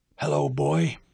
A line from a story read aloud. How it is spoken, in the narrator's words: he croaked